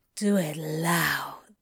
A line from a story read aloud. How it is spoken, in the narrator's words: Crowley breathed